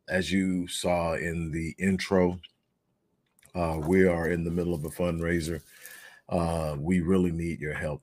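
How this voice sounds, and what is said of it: Strained, worn-out voice. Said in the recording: “My voice is a little shot today”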